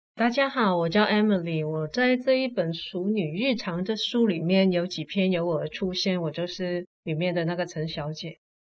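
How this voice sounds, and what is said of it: Slight Hong Kong accent in Mandarin. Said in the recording (Chinese): “我讲话有一点口音，请大家多多包涵，因为我是香港来的 ... 你是我遇到过在台湾讲国语讲最好的香港人”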